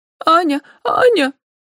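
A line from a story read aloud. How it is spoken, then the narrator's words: Boy's sobbing call. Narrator (Russian): всхлипывая, звал мальчик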